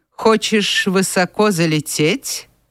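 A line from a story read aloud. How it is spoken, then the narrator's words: Dry remark. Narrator (Russian): сухо заметил Эндрю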